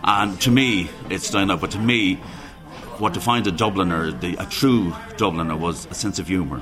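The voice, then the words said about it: West of Ireland accent. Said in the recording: “You may be able to ascertain from my accent, I'm not a Dubliner. I come from the west of Ireland”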